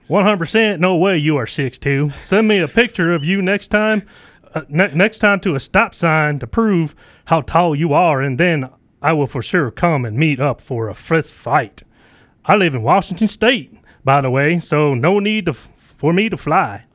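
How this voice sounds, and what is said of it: Hick Gomer Pyle character voice. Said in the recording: “Is that the Washington State accent? ... Well, I just had it because of Gomer Pyle.”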